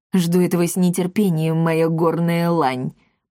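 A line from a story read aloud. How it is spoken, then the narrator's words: Growled. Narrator (Russian): прорычал Макласки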